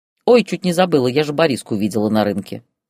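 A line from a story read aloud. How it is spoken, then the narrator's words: Plain. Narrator (Russian): сказала Елена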